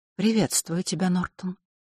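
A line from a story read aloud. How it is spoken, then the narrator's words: Quiet. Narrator (Russian): тихо сказала она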